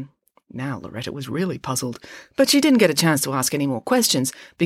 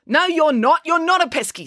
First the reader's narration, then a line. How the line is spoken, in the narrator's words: snapped April